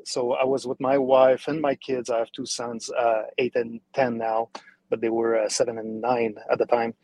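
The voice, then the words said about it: French-Canadian accent. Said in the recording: “as you can hear my accent, I'm a French-Canadian”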